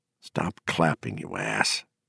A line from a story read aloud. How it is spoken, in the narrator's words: Gardner whispered back